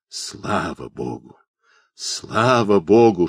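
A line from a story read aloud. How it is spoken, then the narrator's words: Whispering bearded man. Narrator (Russian): шептали из густой бороды губы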